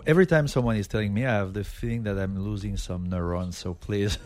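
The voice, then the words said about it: French accent. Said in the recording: “Look at that accent, huh? ... Frenchy sexy. ... I'm French.”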